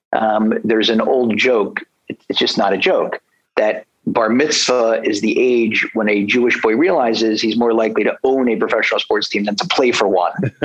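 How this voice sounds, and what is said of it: Philadelphia accent. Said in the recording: “I grew up in Philly. So if you have trouble understanding my accent, you'll just let me know.”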